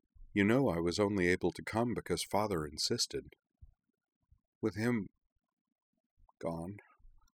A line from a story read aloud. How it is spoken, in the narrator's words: she said, her voice quavering faintly, then recovering